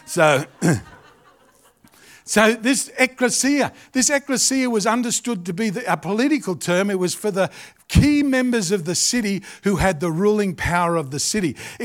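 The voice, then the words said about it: Australian accent. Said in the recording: “I've got an Australian accent, which makes everything sound weird anyway.”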